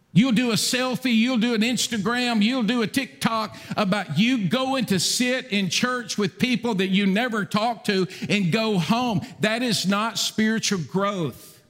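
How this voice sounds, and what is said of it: Yelling, loud emphatic preaching. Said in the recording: “why are you yelling?”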